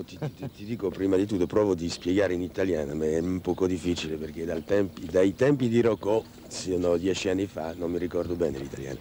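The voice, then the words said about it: Italian with a foreign accent. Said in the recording (Italian): “mi ricorda che Luchino odio proprio il mio accento”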